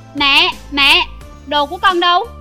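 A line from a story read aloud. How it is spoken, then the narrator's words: Frightened, anxious loud shout. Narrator (Vietnamese): Tôn Kiến vừa sợ vừa lo, hét lớn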